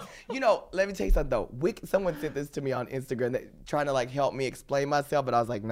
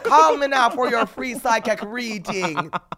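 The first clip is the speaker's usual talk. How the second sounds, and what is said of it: Bad put-on Jamaican accent, sounds Irish. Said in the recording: “so you didn't think I was Jamaican ... it was a little bit call Irish ... That's not Jamaican? ... it was horrible. It was horrible ... my Jamaican accent”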